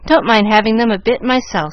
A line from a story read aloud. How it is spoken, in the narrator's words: said Frank, in such a tone of cheerful resignation